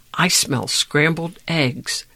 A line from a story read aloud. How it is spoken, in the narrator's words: Josh whispered into Dink's ear